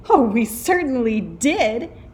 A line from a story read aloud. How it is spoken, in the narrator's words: cried all the kids